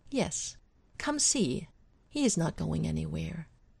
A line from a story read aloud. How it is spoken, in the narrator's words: he chuckles